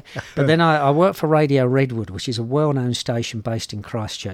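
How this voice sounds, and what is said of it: Slight cockney English accent. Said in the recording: “They will not get your accent. ... I'm a bit cockney”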